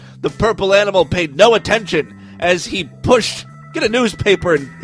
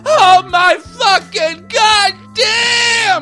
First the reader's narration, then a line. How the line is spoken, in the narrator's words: She screamed